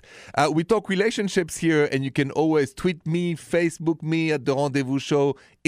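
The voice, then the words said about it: Thick French accent. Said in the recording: “that thick accent of mine, it is French, straight from Paris.”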